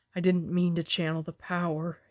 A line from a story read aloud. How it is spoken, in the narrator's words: whispered